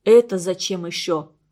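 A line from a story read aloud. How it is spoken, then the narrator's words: Stern. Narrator (Russian): строго сказал Слава Дунаев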